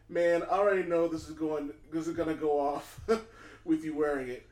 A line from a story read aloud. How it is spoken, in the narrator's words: Security laughs, saying